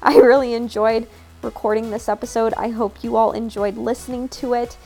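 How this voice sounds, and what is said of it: Worn-out, nearly lost voice. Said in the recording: “I am officially chatted out. I don't know if you can hear it, but my voice is almost gone.”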